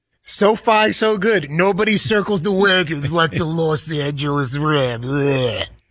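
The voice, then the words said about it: Imitates a sports broadcaster's voice. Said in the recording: “You do it better than me... Do a much better Chris Berman impersonation.”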